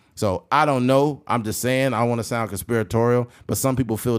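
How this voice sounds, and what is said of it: Usual voice. Nothing is said of it.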